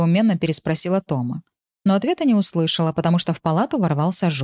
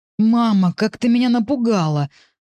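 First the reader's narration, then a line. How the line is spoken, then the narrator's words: Breathless, then crying. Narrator (Russian): выдохнул он и заплакал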